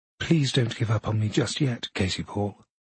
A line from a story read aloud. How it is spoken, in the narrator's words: sometimes more seriously, more anxiously